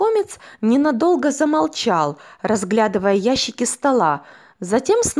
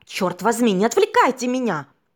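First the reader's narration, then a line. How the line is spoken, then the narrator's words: Irritated shout. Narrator (Russian): Раздраженно выкрикнул парень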